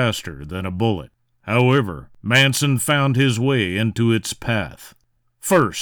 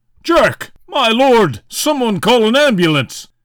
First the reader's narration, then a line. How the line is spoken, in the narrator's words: his partner, Roger York, shout